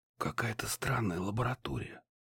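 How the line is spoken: Whispering. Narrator (Russian): прошептал я

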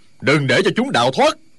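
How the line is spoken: Furious loud shout. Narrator (Vietnamese): Du Liên Châu cả giận quát to

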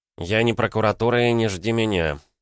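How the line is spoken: Gruff mutter, softening. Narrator (Russian): буркнул он, но голос стал мягче

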